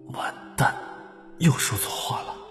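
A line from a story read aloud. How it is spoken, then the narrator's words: Through gritted teeth. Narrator (Chinese): 中晚咬牙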